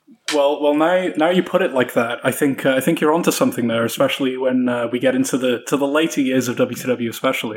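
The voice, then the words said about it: British accent. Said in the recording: “I've been putting on this British accent”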